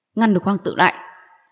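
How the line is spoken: Cold stern empress. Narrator (Vietnamese): Hoàng hậu đang ngồi trên phượng tọa thấy vậy, sắc mặt trầm xuống vỗ bàn lạnh lùng nói

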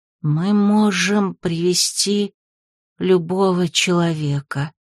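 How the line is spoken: Sad objection. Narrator (Russian): печально возразило существо

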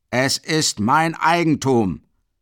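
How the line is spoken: Bellowing. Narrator (German): brüllt Mikolka

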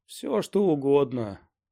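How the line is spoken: Moaning. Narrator (Russian): простонал Сайтримба

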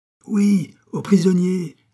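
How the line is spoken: Shouted while dashing forward. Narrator (French): crie Pitou en s'élançant à son tour derrière le fermier

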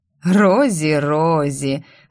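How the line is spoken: Laughing. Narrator (Russian): рассмеялся оборотень

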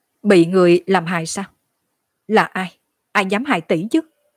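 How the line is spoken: Sudden low snap. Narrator (Vietnamese): Hứa Tâm Lan bỗng nhiên khẽ quát

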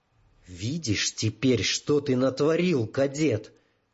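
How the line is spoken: Whisper. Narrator (Russian): прошептал Террошах

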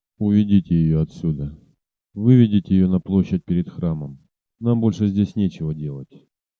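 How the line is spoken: Hollow, strained self-control. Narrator (Russian): со страшным усилием овладев собою, он глухо проговорил

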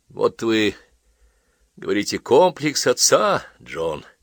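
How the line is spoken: Sad. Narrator (Russian): грустно сказал Чкамасов

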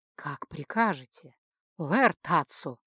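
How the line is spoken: Almost sensual whisper. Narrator (Russian): почти чувственно шепнул Верл

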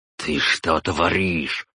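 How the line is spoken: Through gritted teeth. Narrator (Russian): процедила сквозь зубы она

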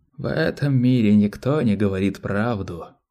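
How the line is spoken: Hoarse rasp. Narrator (Russian): прохрипел Малки

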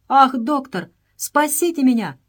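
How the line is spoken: Exclaimed. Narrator (Russian): воскликнул он

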